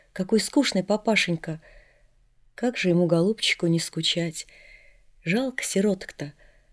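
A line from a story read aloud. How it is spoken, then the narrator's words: Whisper. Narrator (Russian): Маришка мне шепнула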